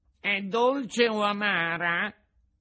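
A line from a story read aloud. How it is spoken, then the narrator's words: Whining question. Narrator (Italian): domandò con voce di piagnisteo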